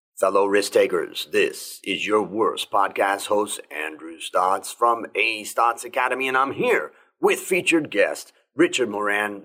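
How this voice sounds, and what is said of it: Late-night FM radio announcer voice. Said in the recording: “my radio voice ... You sounded like an FM radio voice that is on at 2 o'clock in the morning and hope that somebody out there is listening”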